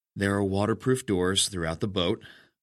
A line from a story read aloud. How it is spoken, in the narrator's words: I said, carefully and calmly